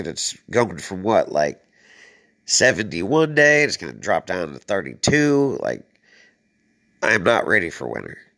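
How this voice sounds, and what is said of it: Hoarse voice. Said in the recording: “I'm a little hoarse right now because of this damn weather... I'm finding a head cold”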